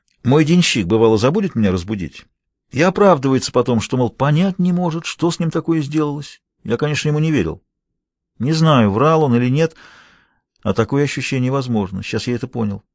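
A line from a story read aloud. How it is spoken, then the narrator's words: Thoughtful. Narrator (Russian): задумчиво произнес Томми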